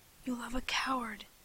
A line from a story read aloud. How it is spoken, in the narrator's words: I whispered, for he had been right all along